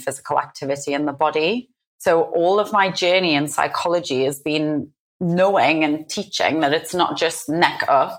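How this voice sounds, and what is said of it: Northeast English Newcastle accent. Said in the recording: “where your accent might be from ... The northeast of England, so a place called Newcastle.”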